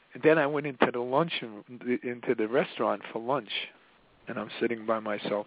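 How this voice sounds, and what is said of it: Mafia-style Italian-American accent. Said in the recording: “I love your mafia accent.”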